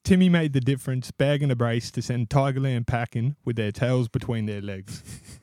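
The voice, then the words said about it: Half-committed put-on accent. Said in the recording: “I would have preferred a little bit more commitment to the accent.”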